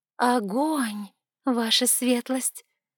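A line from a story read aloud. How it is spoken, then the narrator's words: Slow drawl. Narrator (Russian): Медленно протянула я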